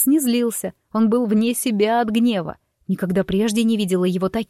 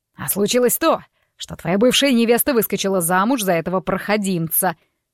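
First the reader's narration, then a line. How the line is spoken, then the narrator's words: Father barking. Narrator (Russian): рявкнул папа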